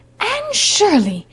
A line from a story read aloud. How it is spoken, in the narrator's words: exclaimed Marilla